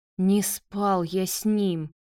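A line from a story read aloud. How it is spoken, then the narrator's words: Hoarse rasp. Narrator (Russian): прохрипел Марат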